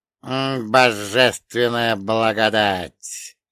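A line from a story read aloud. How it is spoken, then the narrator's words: Creaky voice. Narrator (Russian): проскрипел Ольга Богданович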